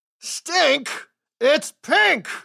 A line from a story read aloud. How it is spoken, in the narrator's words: he roared